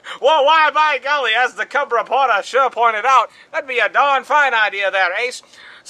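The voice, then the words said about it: Old-time radio newscaster voice. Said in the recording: “old time radio news voice”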